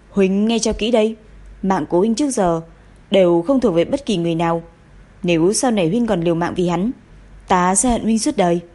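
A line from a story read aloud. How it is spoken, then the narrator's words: Sudden anger, harsh voice. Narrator (Vietnamese): Bỗng nàng lại nổi cơn giận dữ, gằn giọng nói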